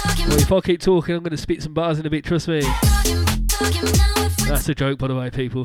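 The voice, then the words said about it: Brummie (Birmingham) English accent. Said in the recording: “this Brummie accent”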